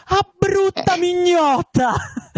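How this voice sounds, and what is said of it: Roman dialect put-on voice. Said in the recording (Italian): “la faccio in romanesco”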